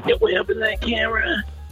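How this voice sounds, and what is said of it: Exaggerated vocal fry. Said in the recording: “I'm gonna emphasize the vocal fry ... You listen to my vocal fry.”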